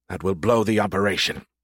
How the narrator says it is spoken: Smythe said through clenched teeth

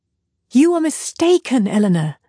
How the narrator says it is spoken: she said warmly

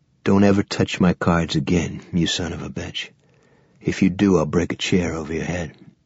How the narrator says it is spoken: Judge Bragg had said, very quietly

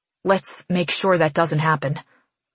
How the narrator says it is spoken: he mutters

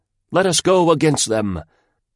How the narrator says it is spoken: they cried out

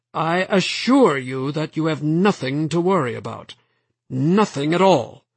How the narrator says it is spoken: his voice rose

